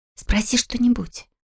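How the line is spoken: Whisper. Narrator (Russian): шепнула Лика

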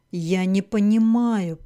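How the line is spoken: Moaning. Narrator (Russian): простонал Тесме

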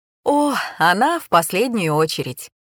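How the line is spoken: Laughing. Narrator (Russian): рассмеялся Федор Федорович

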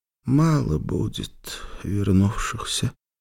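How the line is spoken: Quiet. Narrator (Russian): тихо сказал Иоанн

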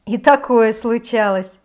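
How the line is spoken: Laughing. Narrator (Russian): рассмеялась я

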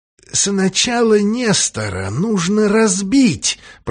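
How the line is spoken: Hoarse wheeze. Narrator (Russian): просипел Джефферсон

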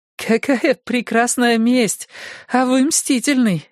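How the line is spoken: Laughing. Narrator (Russian): засмеялась вместе с ним Фортуна

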